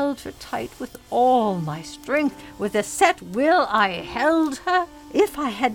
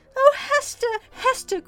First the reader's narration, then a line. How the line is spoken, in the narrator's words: cried Miss Rosamond